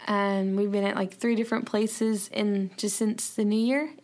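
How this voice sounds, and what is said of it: Tired, rough-sounding voice. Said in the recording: “So I'm a little tired, but so my voice is like yucky.”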